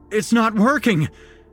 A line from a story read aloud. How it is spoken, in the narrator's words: cried over the beast's enraged screams